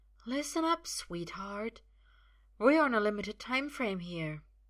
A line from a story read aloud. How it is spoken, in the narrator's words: murmurs